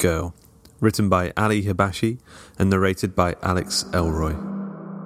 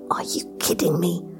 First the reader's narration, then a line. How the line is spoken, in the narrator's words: Viv hissed